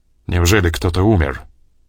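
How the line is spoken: Suddenly gloomy. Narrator (Russian): резко помрачнел Крюгер

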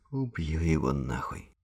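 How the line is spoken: Forced conviction. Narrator (Russian): постарался, чтобы это прозвучало убедительно

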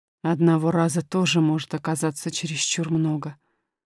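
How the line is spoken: Muttered. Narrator (Russian): пробормотал король

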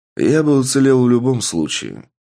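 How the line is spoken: Tired voice. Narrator (Russian): сказал Сергей Витальевич усталым голосом

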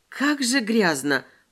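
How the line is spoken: Hissing. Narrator (Russian): прошипела я

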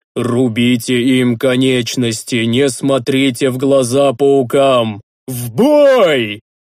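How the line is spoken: Roaring battle command. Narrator (Russian): Зарычал Рикар

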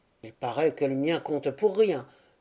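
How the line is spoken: Driver murmuring. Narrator (French): murmura le conducteur

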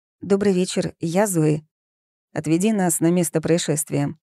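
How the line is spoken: Commanding man. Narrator (Russian): приказным тоном велел небритый мужчина

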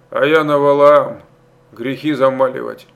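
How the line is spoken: Chuckling. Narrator (Russian): он хохотнул

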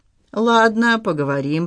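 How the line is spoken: Grumbled. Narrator (Russian): проворчал Пафнутий

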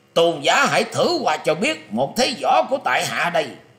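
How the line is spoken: Old man's loud shout. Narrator (Vietnamese): lão ta bèn quát to lên rằng

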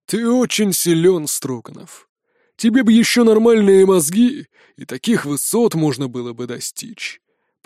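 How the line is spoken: Contemptuous exhale. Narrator (Russian): презрительно выдохнул ППшка

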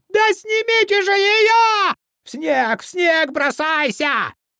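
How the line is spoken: High thin scream. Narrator (Russian): Подожженный орал теперь высоким, тонким голосом, как баба

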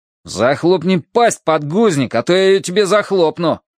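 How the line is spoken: Harsh bark. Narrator (Russian): рявкнул Росс Уилкокс

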